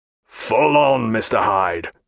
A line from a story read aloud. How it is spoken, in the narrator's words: said, in a harsh voice